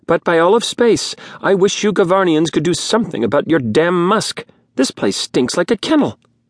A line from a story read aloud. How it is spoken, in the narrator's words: Zola snapped back